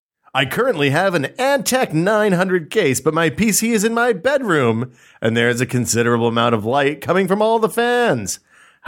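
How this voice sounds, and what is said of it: Dramatic radio announcer voice. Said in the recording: “Is this you doing it dramatically? ... This is my dramatic. ... This is my radio voice.”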